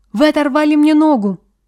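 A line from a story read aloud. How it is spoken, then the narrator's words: Cry of pain. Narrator (Russian): граф вскрикнул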